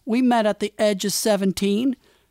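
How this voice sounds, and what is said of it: Put-on southern accent. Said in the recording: “replies with a southern accent”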